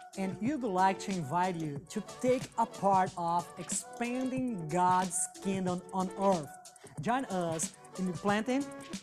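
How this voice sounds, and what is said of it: Brazilian accent. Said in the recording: “They're a Brazilian couple ... you're going to love ... accent.”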